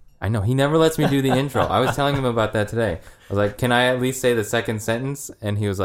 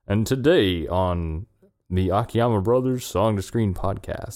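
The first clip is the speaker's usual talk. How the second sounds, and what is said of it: Deep announcer-style radio voice. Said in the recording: “Do I have a nice radio voice?”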